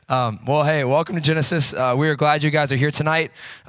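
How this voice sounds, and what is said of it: Rough, deep, unwell-sounding voice. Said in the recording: “forgive my voice this tonight. I feel a little under the weather, so hopefully I don't sound like nails on a chalkboard ... sorry for my voice ... It's manly.”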